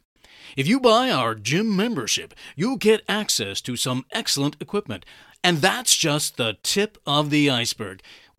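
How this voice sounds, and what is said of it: Salesman announcer voice. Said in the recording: “my salesman announcer voice”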